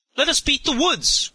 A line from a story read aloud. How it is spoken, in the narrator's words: cried several at once